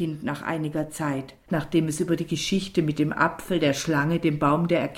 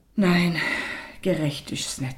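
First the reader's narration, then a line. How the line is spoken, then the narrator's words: Mother, tired, after pause. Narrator (German): sagte die Mutter nach einer langen Pause müde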